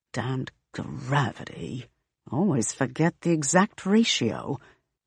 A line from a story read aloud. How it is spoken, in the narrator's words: The woman in white mutters